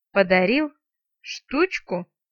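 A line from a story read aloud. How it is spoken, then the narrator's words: Loud nervous giggle. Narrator (Russian): Вампир так громко и нервно захихикал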